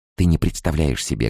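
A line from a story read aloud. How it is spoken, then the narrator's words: Quiet and fast. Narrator (Russian): говорила я тихо и быстро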